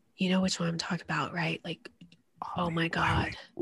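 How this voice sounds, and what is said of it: Whispering. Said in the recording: “Why are we whispering? ... You know why we're whispering.”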